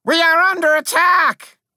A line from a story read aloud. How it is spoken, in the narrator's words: I cried